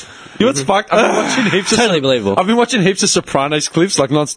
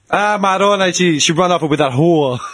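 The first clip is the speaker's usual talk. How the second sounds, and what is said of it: Put-on Brooklyn New Jersey accent. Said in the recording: “the Brooklyn Jersey ... I know the accent.”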